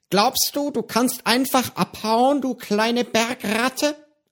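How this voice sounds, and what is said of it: Hissing voice with a strange accent. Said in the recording (German): “fauchte ihn eine Stimme mit einem merkwürdigen Akzent an”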